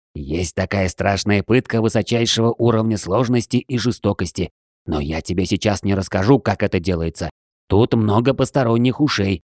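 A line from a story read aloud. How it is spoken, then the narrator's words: Conspiratorial whisper. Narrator (Russian): заговорщицки прошептал Джей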